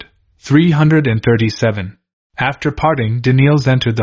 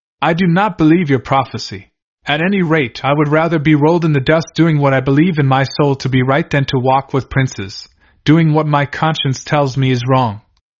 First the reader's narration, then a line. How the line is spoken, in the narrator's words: Elder Daniels in his weariness and discouragement, replied firmly